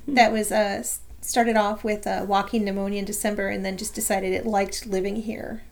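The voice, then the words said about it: Slightly hoarse voice. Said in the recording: “I am still coughing, I am still a little bit hoarse ... I can hear that I'm a little hoarse.”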